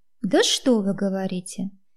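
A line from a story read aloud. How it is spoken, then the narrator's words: Sarcastic indignant question. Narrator (Russian): Язвительно осведомилась я, продемонстрировав охватившее меня возмущение хамским отношением этого мужчины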